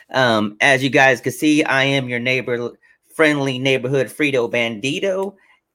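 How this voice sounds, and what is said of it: Impression of Mr. Coach Chips. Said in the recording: “My little impression of Mr. Coach Chips.”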